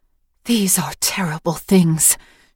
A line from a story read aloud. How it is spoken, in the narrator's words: she whispered